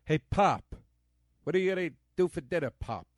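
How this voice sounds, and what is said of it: Impression with Queens, New York accent. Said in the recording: “my Kevin Pollak impression from Grumpy Old Men ... He's got that Queens, New York kind of thing to him.”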